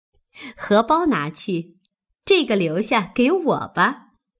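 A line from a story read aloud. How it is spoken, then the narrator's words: Laughing. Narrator (Chinese): 又笑道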